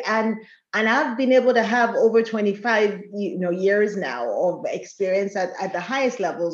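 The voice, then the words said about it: Foreign accent. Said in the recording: “My accent, you hear me? Like, she's from somewhere”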